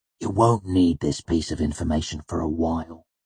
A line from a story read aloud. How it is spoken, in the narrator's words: Manet said quietly after a long period of silence